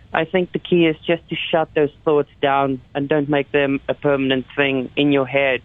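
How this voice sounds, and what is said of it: Foreign accent. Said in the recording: “We can obviously hear by your accent that even though you live in Calgary, that's probably not your first port where you were born.”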